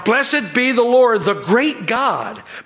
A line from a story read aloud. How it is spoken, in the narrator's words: they cried out